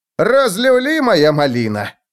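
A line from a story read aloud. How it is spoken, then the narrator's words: Yelling in disbelief. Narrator (Russian): не поверив глазам, заорал Клоп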